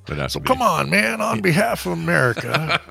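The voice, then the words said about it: Bad Joe Biden impression. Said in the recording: “my shitty Biden impersonation”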